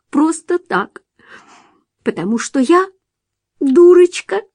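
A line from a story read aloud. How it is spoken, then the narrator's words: Sobbing reply. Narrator (Russian): Джулия всхлипнула и ответила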